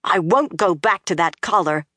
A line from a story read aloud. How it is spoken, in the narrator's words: Egwene said fiercely